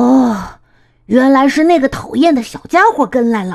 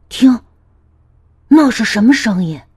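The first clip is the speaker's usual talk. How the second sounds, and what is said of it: Quiet, hushed voice. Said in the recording (Chinese): “小声地说”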